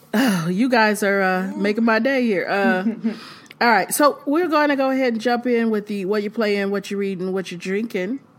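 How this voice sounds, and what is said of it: Slightly raspy voice. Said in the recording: “excuse my voice. I'm a little raspy. I've been sick all week.”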